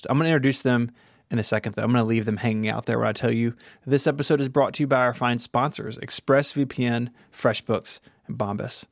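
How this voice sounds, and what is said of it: Southern US accent. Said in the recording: “I live in the South, so my voice is different from that of my co-host.”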